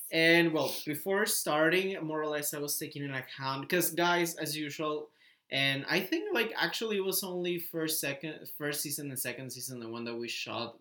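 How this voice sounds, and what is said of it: Slightly raspy voice. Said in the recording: “I can feel my voice a bit raspy”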